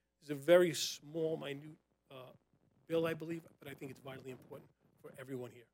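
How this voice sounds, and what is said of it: New York accent. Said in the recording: “Sir, with your accent”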